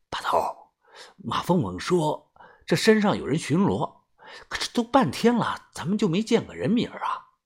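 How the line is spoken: Low question. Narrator (Chinese): 我低声问道

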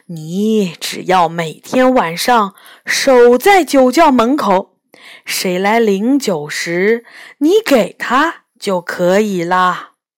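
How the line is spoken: Slight smile. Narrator (Chinese): 财神微微一笑说

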